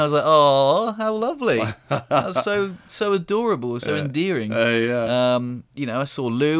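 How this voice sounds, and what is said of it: Usual voice. Nothing is said of it.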